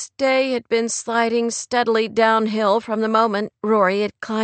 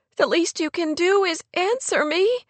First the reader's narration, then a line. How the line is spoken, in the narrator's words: Kate said with a sob